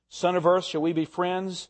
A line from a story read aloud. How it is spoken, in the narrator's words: asked Aslan